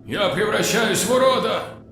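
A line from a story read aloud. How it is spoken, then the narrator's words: Wailing scream. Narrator (Russian): вопил лейтенант Вай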